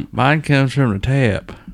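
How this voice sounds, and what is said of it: Put-on rural hick accent. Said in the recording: “you say that with a hick accent”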